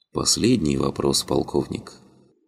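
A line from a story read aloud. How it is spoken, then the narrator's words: Quiet. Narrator (Russian): негромко произнес господин Пу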